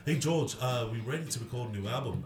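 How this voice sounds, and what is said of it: Imitates another person's voice, Liverpool accent. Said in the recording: “George is about to do a Ringo impression ... They're from Liverpool”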